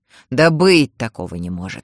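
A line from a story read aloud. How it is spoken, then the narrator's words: Boy snorting. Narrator (Russian): фыркнул мальчик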